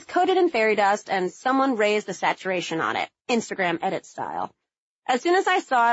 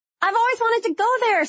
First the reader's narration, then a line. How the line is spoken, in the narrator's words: Sarah squealed